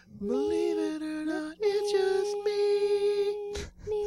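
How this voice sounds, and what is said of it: Singing in a high falsetto. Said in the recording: “Your falsetto is so good. He's really good at.”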